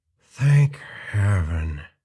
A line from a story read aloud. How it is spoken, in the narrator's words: he whispered in the thick, hideous language of that era